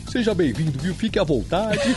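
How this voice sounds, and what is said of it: Imitates another person's voice. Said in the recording (Portuguese): “suas imitações ... Gostei da imitação”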